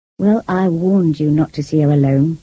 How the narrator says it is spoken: said Rochester

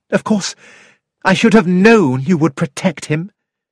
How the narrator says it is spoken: said Mary bitterly

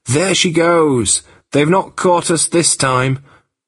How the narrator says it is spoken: shouted again

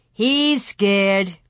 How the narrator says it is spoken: Pierre sneered

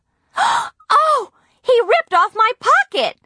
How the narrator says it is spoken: Nancy screamed

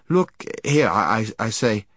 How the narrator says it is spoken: he stammered

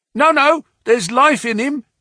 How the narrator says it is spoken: shouted another

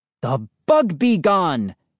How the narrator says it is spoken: exclaimed

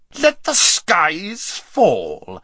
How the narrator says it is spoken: shrieked Rabadash

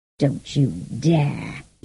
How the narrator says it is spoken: he growled

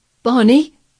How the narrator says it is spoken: he cried out

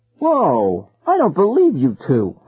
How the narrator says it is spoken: I exclaimed

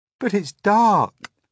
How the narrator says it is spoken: cried James

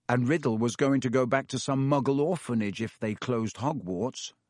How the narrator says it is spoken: said Harry

